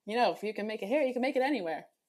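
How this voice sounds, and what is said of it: Put-on New York accent. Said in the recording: “that's my New York accent for you”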